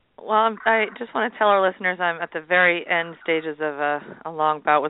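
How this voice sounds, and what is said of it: Husky, hoarse voice. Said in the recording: “laryngitis, so if I sound a little, I don't know, husky ... You have the sexy voice going on.”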